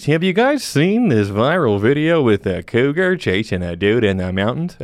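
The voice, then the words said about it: Exaggerated radio announcer voice. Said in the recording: “put on my radio voice”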